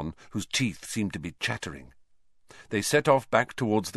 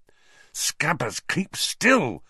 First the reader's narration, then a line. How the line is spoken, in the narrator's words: Ron hissed